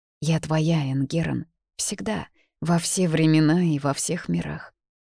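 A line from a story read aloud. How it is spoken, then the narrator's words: Emotional trembling whisper. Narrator (Russian): Дрожащим от эмоций голосом прошептала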